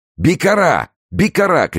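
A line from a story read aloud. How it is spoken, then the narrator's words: Furious crowd shouting. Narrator (Russian): кричали разъяренные беглецы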